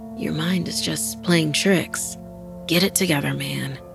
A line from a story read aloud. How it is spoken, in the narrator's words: he whispered to himself sleepily